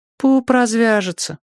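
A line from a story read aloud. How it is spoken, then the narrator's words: Sighing. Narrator (Russian): вздохнула та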